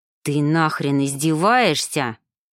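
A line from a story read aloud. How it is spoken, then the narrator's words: Hissing. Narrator (Russian): прошипел он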